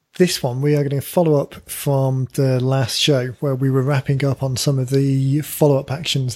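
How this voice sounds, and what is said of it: Slightly croaky voice. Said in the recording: “my voice is slightly croaky”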